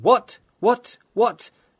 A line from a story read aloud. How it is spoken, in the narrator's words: Mallowell shouted